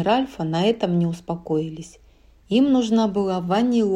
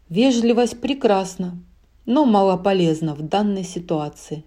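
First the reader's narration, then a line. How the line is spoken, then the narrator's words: Sighing. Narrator (Russian): вздохнул он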